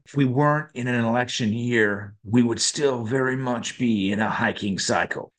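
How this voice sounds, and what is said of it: Weak attempt at Texan accent. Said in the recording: “apologies in advance for this accent ... was that meant to be a New York accent? ... it was a Texan accent ... you might need to work on that a little bit”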